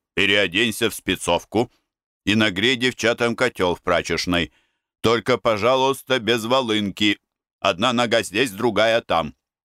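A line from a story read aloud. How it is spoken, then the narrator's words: Stern. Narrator (Russian): Я встретил Переца и сказал ему строго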